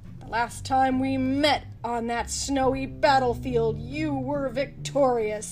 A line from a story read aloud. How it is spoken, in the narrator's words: Luffy snarled